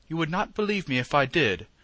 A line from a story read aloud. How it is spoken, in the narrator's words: Sir Henry said, with one of the hearty laughs which seemed to come right out of his great lungs